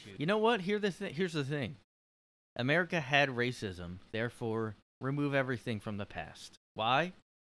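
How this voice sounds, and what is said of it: Put-on southern American accent. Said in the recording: “I'm having a southern accent in this one”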